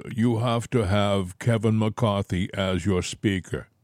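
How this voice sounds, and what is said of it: Imitates another person's voice. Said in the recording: “I'm doing a poor imitation, but maybe it's not that bad.”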